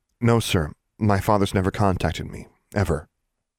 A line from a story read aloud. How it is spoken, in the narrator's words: said firmly